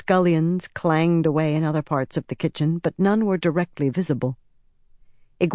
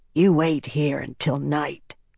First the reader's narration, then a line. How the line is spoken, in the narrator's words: Laris said in a low voice